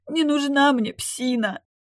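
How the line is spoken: Girl sobbing. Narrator (Russian): всхлипывая, проговорила девочка

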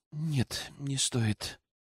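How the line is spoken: Quiet female reply. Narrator (Russian): тихо ответила она

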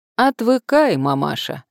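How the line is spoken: Cheerful reply. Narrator (Russian): весело ответил продавец

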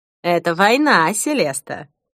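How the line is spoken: Joyful. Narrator (Russian): радостно произнесла она

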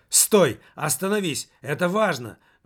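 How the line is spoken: Exclamation. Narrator (Russian): воскликнул

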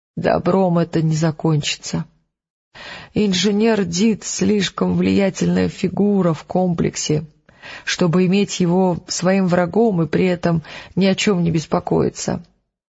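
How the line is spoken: Sad sigh, old man. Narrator (Russian): грустно вздохнул старик

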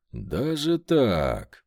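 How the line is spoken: Drawn-out, thoughtful. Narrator (Russian): протянул я, задумчиво почесав подбородок

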